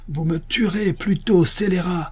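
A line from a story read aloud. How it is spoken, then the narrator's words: Superior crying out. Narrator (French): s'écria la supérieure en criant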